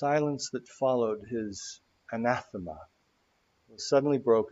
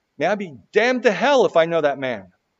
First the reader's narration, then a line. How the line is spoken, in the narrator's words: he heard his own voice shouting